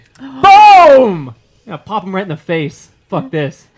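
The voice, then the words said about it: Yelling. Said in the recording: “Sorry for yelling.”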